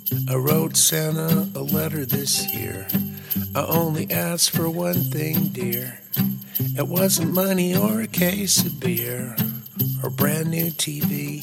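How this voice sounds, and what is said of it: Scratchy singing voice. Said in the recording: “I barely could sing when I wrote this song. So my voice is a little scratchy on it.”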